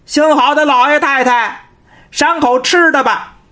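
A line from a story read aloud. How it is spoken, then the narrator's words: Shouting. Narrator (Chinese): 张广泰 冲着官仓就喊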